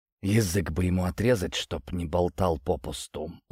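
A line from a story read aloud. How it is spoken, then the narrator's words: Father's quiet whisper. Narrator (Russian): тихий шепот отца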